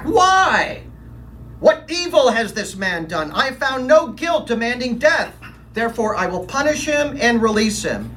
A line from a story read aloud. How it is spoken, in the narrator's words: I shouted back